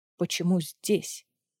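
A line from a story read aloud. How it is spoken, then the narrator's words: Mumbled, head down. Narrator (Russian): Не поднимая головы, промямлил Варнан Дорин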